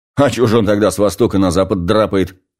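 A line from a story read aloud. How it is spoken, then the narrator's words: Snorting. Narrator (Russian): фыркнул Жиган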